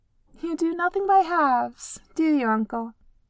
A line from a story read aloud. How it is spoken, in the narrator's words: Feely laughed